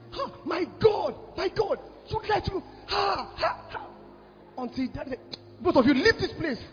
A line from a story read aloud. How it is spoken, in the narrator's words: I was shouting